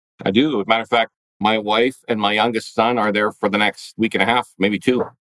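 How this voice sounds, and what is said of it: Canadian accent. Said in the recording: “I hear the Canadian accent”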